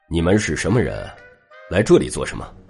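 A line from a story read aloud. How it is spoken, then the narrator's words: Cold. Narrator (Chinese): 冷冷朝那男子和独眼说道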